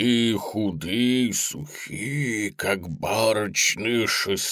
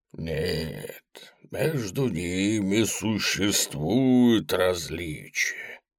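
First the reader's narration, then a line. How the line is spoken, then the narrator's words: Soft. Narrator (Russian): мягко сказал Мегер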